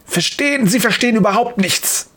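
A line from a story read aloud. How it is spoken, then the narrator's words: Hiss. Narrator (German): faucht Dr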